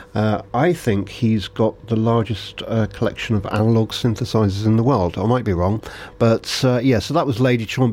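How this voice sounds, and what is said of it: Hoarse, failing voice. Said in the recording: “my voice is going”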